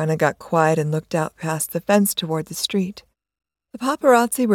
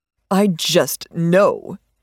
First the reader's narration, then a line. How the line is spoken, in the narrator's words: snapped